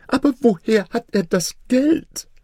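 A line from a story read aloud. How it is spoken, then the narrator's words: Whining lament. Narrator (German): jammerte der Wesir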